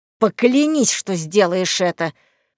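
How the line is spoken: Hissing, her superior. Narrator (Russian): шипел ее руководитель, товарищ-друг

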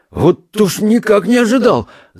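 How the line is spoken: Bewildered, smiling speech. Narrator (Russian): заговорил он, растерянно улыбаясь

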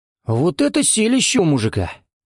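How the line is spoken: Exclamation. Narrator (Russian): воскликнул один из полицейских

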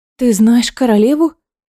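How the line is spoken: Surprised breathless. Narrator (Russian): Удивленно выдохнула Элида

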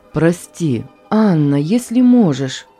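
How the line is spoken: Moaning. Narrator (Russian): простонал

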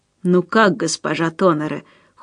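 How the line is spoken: Cold question. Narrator (Russian): холодно спросил

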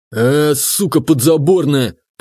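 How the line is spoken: Growled by retired oilman. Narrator (Russian): прорычал отставной нефтяник

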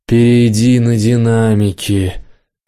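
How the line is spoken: Moaned. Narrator (Russian): простонал

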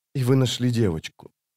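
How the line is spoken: Quiet. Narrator (Russian): тихо проговорила она

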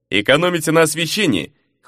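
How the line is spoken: Wry snort. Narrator (Russian): хмыкнул де Суоза

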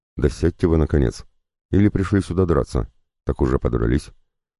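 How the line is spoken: Harsher tone. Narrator (Russian): сказал я более жестким тоном

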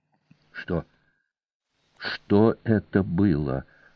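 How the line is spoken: Whispered question. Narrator (Russian): шепотом спросила Кана

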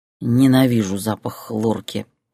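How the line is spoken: Groaning. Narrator (Russian): простонал он

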